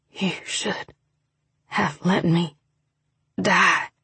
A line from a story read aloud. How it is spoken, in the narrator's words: Ryder said huskily